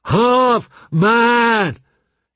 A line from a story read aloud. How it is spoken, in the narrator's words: he shouted